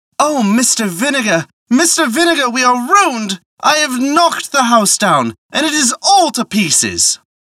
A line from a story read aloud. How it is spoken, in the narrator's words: she exclaimed